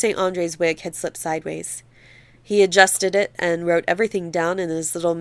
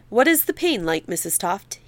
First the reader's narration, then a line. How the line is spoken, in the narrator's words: he asked